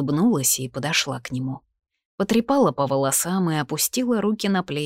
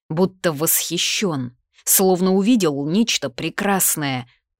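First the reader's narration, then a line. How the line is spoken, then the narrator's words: Angry, through gritted teeth. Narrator (Russian): процедил, явно злясь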